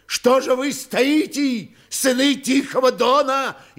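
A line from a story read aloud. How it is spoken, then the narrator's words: Old man shouting. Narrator (Russian): Еще раз крикнул старик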